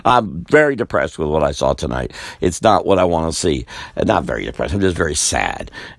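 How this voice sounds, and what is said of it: Fading voice, getting lower in pitch. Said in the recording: “I'm sorry I'm sounding, my voice is going, getting lower and lower.”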